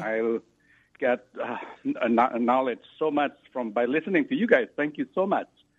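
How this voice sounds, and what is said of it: Noticeable accent. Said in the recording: “I hope you understand my accent”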